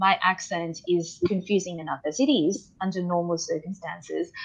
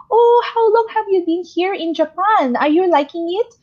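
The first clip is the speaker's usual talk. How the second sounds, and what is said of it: Put-on Filipino accent. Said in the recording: “I sounded so Filipino ... I don't talk like that.”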